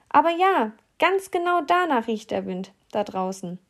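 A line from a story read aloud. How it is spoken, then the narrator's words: Mouse calling out. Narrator (German): die größere Maus rief dann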